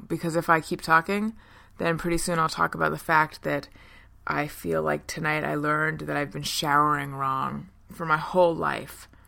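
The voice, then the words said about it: Tired-sounding voice. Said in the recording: “as you can hear in my voice right now, I'm tired.”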